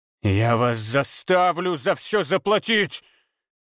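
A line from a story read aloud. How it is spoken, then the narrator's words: Hissing. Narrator (Russian): прошипел Абурицей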